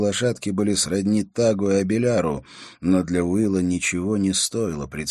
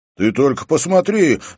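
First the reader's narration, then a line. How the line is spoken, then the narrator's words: Sudden shout. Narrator (Russian): закричал вдруг Хорус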